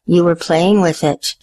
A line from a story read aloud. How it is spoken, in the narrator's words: said, smiling gently